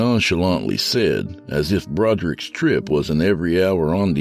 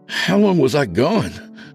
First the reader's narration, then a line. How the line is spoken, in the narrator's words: Broderick breathlessly asked